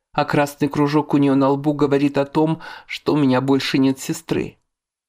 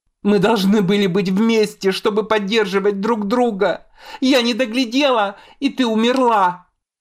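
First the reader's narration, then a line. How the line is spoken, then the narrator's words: Furious shrieking. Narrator (Russian): Я продолжаю визжать, в ярости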